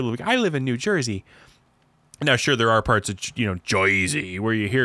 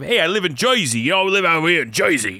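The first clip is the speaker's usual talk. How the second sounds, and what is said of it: Put-on New Jersey accent. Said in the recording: “the Jersey accent”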